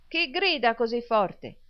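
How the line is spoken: Shouting. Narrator (Italian): gridò Smike

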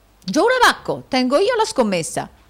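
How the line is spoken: Exclaimed. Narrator (Italian): esclamò il nobile allocco

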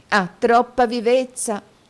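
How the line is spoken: Exclaimed. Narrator (Italian): esclamò la signorina Lacrivi

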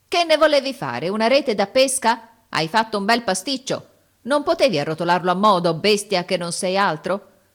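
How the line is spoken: Strained grumbling. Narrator (Italian): Brontola di tanto in tanto, affaticandosi

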